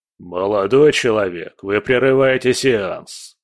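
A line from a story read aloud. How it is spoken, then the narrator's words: Rude, heavyset older man. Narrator (Russian): грубо сказал тучный мужчина с седыми висками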